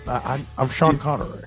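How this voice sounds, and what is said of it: Sean Connery impression. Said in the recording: “I'm glad that you watched a dozen Sean Connery movies... You need to work on that impression.”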